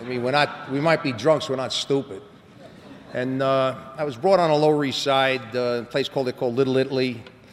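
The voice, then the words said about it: New York accent. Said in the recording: “I was brought up in New York, and you know that. You know, you can tell by my accent.”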